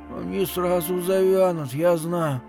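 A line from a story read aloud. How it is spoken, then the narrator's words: Strained, through teeth. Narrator (Russian): отвечала Ики сдавленным голосом сквозь зубы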